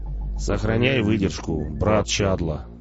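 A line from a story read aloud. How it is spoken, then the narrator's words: Stern. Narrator (Russian): строго сказал Шидло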